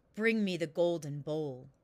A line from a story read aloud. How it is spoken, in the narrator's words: the king said in a gruff, harsh voice